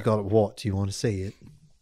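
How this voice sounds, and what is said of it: Put-on British accent. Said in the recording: “in a British accent”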